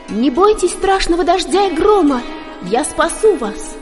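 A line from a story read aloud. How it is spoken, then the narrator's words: Shouted. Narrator (Russian): Четвертая гопи крикнула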